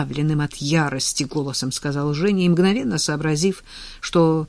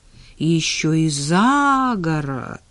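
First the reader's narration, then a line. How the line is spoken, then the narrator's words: Respectful drawl. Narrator (Russian): уважительно протянула Надя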